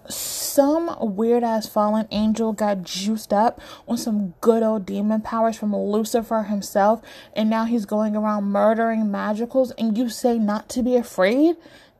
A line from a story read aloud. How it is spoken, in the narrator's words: Declan snorts